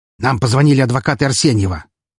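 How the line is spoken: Angry curt remark. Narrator (Russian): зло бросил Сергей

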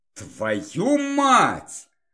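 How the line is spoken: Angry hiss. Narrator (Russian): зло прошипел я

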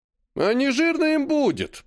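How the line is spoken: Grumbling. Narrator (Russian): проворчал Серый

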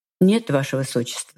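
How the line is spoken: Completely calm reply. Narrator (Russian): совершенно спокойно отзываюсь я

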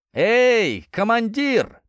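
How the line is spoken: Shouted. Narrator (Russian): крикнул один из них

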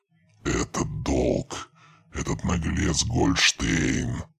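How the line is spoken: Hissed, metallic grating voice. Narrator (Russian): Прошипел, и его голос был похож на скрежет металла

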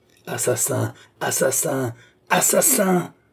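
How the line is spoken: Young woman screaming. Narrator (French): vociféra la jeune femme

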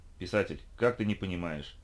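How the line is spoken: Malicious sneer. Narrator (Russian): злобно осклабился

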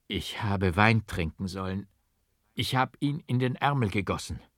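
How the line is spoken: Groaning in agony. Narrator (German): stöhnte ich, ohnmächtig von der entsetzlichen Qual

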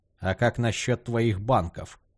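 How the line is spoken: Gloomy curt remark. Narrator (Russian): мрачно бросил Тулипа

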